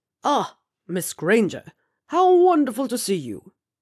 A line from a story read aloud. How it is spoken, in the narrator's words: Horace Slughorn boomed at her over the rather large glass of port in his hand